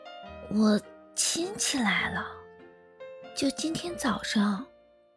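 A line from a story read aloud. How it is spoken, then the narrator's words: Troubled sigh. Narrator (Chinese): 云舒叹了口气，皱着眉说道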